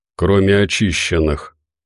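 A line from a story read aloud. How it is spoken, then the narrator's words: Gloomy remark. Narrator (Russian): мрачно заметил Кирилл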